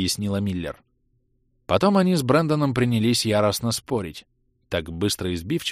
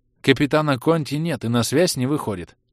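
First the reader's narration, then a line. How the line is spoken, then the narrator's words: Plain. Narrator (Russian): сказала Миллер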